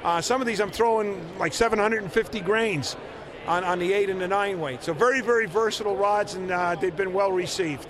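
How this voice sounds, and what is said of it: American East Coast accent. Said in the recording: “You probably tell by my accent, I'm an East Coast guy.”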